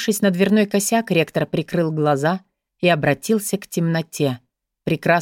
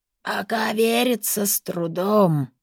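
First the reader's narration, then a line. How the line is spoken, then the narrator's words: Warlock's creaky inner voice. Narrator (Russian): проскрипел голос чернокнижника в его голове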